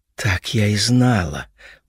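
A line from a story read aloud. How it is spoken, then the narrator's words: Muttered through teeth. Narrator (Russian): процедила Хелена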